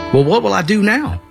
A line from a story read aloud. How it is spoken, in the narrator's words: I asked